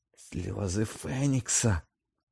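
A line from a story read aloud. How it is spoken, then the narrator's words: Quiet utterance. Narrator (Ukrainian): тихо вимовив Редл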